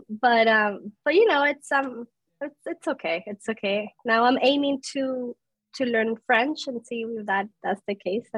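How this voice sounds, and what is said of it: Spanish accent in English. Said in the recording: “I speak Spanish. That's my first language. ... I am very self-conscious about my accent and my English”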